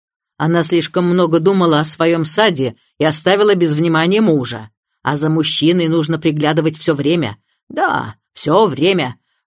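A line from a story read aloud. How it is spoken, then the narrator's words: Harsh, firm repetition. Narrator (Russian): жестким тоном повторила она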